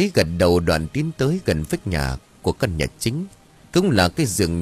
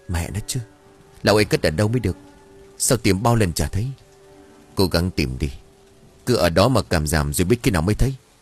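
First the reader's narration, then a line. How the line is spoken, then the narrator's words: Old woman muttering. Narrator (Vietnamese): Bà Lý miệng lẩm bẩm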